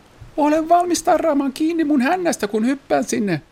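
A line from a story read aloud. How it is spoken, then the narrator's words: Shouted instruction. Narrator (Finnish): Kurre huusi ohjeeksi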